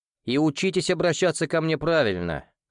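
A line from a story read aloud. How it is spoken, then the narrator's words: Wry snort. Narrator (Russian): хмыкнул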